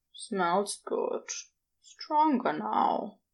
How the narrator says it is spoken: Crowley murmured drowsily

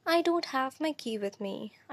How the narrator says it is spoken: I sighed

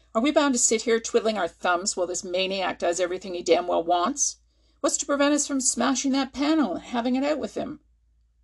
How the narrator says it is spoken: Mallinson shouted angrily

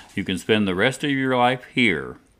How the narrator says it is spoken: Dale would solemnly tell her son

